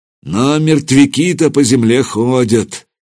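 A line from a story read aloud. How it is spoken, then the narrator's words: Leader's sigh. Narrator (Russian): вздохнул предводитель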